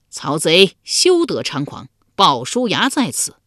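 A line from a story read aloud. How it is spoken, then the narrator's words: Warrior's loud shout. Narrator (Chinese): 一将 高声叫道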